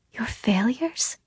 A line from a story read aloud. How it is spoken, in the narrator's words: she whispers